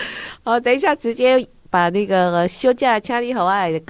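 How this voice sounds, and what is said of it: Usual voice. Nothing is said of it.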